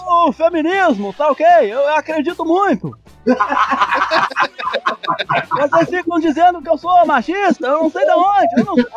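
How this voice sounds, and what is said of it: Imitates another person's voice. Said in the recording (Portuguese): “você é a melhor imitação do Bolsonaro do nosso podcast”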